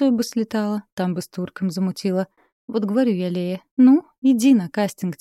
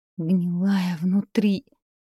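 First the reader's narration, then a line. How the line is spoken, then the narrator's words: Inner groan. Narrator (Russian): мысленно застонала Катерина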